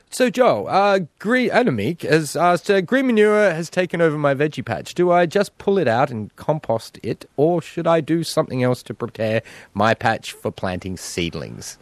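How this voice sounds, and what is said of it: Imitates another person's voice. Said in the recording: “your impression of me ... I got a little bit like, you know, da-da-da, but then I kind of tamed it down”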